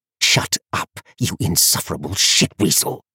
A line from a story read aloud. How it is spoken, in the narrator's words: he snarled